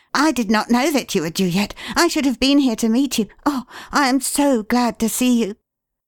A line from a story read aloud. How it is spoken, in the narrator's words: he cried